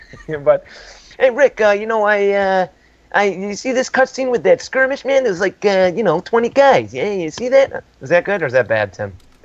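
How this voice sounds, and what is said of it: Poor attempt at a Jersey accent. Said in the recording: “I'm not really good with a Jersey accent ... That was horrible.”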